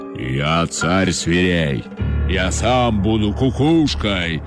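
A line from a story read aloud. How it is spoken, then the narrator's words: Menacing roar, lion. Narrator (Russian): грозно зарычал лев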